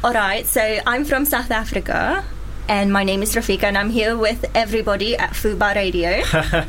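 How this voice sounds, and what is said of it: Put-on foreign accent. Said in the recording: “Actually do it, and I think I do it really well. ... Give us an accent. ... can you do any other accents? I've heard you're quite good.”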